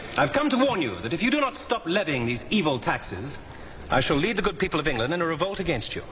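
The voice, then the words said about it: English accent. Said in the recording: “I can speak with an English accent.”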